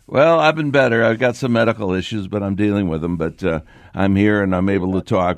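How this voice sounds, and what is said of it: Slightly scratchy voice. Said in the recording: “My voice is a little scratchy from that procedure I had”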